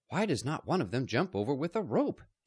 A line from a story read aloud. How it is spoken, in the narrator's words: Captain Drake said impatiently